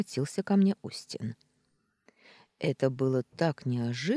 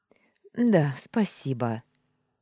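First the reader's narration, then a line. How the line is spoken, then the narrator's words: Hoarse, relieved. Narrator (Russian): ощущая облегчение, просипела я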